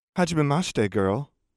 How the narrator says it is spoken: she said happily

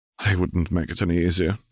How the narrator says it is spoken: she sighed

